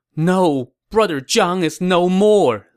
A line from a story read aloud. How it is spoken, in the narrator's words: Liu Bei moaned